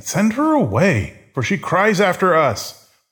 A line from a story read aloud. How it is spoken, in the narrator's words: His disciples begged him, saying